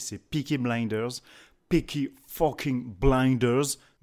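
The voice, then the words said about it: Put-on English accent. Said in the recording (French): “Magnifique accent”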